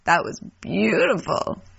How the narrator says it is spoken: the chuckling voice says

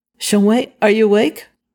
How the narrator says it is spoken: Zhao Yunlan asked

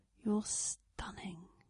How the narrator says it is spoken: Blake told him quietly

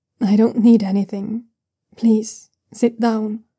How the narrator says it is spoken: Luo Qingang says calmly

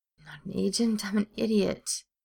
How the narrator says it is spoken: moaned

